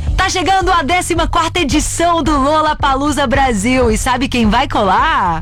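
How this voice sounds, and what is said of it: Announcer-style broadcast voice. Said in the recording (Portuguese): “fazendo voz de locutora ... fazer voz de locutor comigo também, junto”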